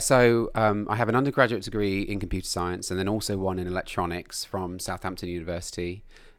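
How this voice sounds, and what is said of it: English accent. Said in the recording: “you obviously have an English accent.”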